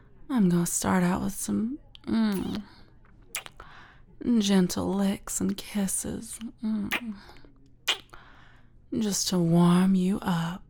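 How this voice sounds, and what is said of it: Southern American accent. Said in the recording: “You like my accent that much? ... The southern ladies do it for you, huh?”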